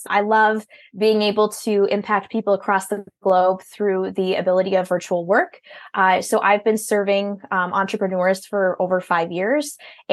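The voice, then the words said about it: Strong Minnesota accent. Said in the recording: “You can probably hear in my voice, I'm from Minnesota. I've got a strong accent,”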